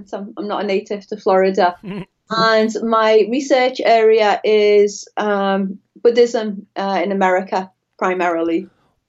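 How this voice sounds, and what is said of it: Liverpool English accent. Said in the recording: “I'm from Liverpool, just to, in case the audience is startled by my accent.”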